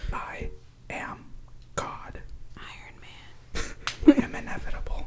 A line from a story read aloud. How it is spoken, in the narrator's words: she leaned closer and whispered in his ear